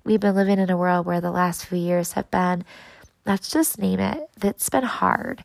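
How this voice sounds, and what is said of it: Slightly sick-sounding voice. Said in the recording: “you can probably hear it in my voice a little bit... I was slammed with what I thought was an upper respiratory infection”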